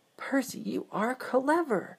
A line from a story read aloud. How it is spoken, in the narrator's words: Thomas exclaimed